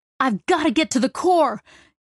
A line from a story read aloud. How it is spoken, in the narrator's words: Jenks yelled across the room